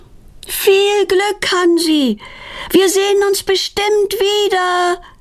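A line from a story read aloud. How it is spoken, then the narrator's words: Calling after. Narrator (German): ruft Petronella ihm nach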